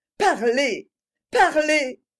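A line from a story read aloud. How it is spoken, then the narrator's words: Pleading. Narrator (French): dis-je d'un ton suppliant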